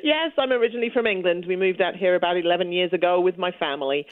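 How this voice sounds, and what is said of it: British accent. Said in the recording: “I hear the accent... you've still got a pretty good British accent”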